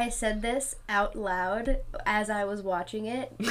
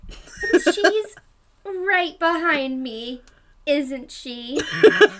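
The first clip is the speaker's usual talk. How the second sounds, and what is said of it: Disney Channel sitcom voice. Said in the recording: “like in the Disney Channel voice ... all your years of, of accent training from watching Disney Channel has really paid off”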